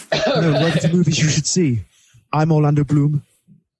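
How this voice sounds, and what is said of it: Orlando Bloom impression. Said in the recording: “Is that an Orlando Bloom impression? ... Bang on. ... I actually thought somehow Orlando Bloom had tapped into the Skype connection for a second there. It was that good ... It's really good.”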